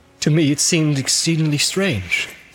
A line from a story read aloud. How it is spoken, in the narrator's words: said Boromir